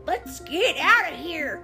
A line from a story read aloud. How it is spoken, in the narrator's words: yelled Mater